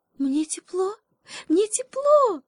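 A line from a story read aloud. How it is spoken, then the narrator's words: Monkey shouting joyfully. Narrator (Russian): Радостно закричала обезьянка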